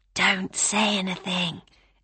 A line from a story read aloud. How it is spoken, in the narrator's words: April whispered